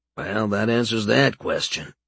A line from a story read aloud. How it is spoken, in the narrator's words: he muttered to himself